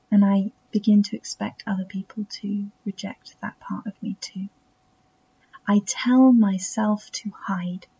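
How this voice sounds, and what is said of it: Self-taught English accent. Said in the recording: “a strange little accent I invented from mimicking ... part of me being English”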